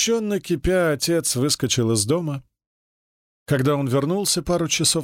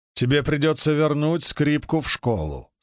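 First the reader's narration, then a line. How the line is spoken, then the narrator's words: Plain. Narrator (Russian): сказал папа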